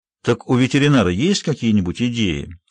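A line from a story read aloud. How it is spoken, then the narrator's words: Completely calm. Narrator (Russian): совершенно спокойно произнес Оливер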